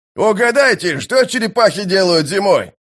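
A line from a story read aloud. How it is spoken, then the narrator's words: Shouted downward. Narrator (Russian): прокричал он вниз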